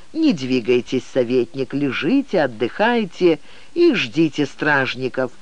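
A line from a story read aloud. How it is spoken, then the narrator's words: Said gently. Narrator (Russian): мягко произнес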